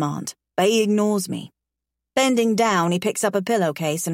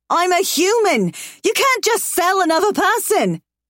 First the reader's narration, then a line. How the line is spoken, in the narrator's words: I scream